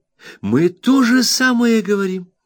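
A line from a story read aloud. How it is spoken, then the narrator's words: Exclamation. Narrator (Russian): воскликнул Треддлс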